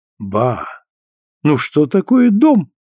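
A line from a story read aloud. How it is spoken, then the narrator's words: Exclamation. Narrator (Russian): воскликнул Теклтон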